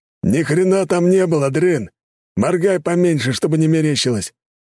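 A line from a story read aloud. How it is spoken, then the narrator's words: Barking shout. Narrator (Russian): гаркнул могила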